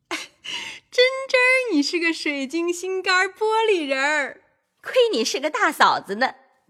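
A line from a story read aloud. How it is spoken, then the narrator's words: Laughing. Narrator (Chinese): 李纨笑道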